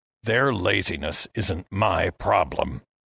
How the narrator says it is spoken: Heston growled

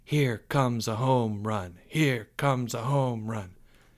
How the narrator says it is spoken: His class began to chant softly

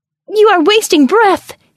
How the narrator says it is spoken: his soul shrieked

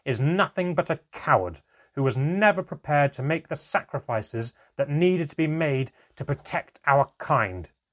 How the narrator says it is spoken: roared

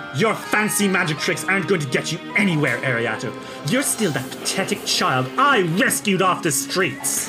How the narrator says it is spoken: kind of snarls and says

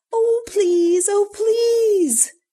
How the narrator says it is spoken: begged Bobby, who only wanted to get to the beach

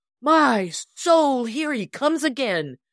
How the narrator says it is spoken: Jonathan fairly yelled

